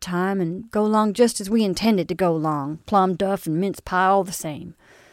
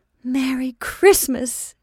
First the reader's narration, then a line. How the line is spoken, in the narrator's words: she exclaimed